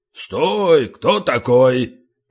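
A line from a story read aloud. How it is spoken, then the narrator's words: Muffled booming drone. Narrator (Russian): прогудел откуда-то из дебри бородищи гномий Унтер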